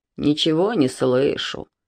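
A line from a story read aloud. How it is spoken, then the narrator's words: Lazy bass objection. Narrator (Russian): ленивым басом возразил Хвостик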